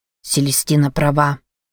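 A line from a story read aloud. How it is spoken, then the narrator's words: Quiet. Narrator (Russian): тихо произнес Роган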